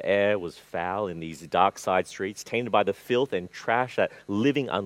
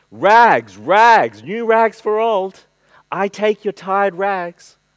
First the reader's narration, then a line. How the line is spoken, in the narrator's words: he was calling out in a clear, powerful voice